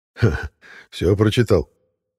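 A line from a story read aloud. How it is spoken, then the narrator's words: Chuckle. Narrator (Russian): хохотнул Орёль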